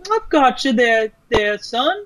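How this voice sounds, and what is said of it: Terrible put-on accent. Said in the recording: “that was a terrible accent.”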